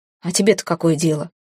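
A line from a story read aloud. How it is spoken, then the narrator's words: Scoffing snort. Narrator (Russian): Он хмыкнул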